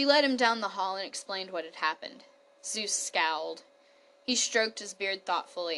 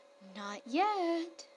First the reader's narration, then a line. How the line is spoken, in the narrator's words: said sweetly